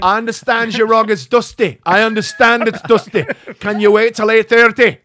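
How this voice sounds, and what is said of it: Good put-on Scottish accent. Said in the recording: “Where's that in? Scotland? ... That was a good accent. ... That was actually really good.”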